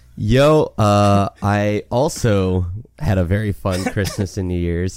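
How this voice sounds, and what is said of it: Gravelly, raspy, congested voice. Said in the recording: “a gravelly, raspy voice ... I'm still congested. I was sick for almost all of it”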